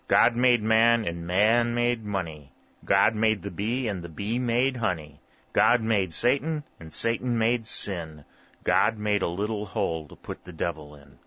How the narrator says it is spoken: repeated solemnly and slowly

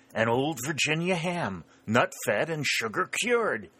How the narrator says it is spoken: exclaimed

